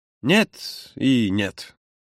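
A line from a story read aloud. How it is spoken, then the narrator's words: Mumbled, head down. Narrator (Russian): пробормотал Юра, не поднимая головы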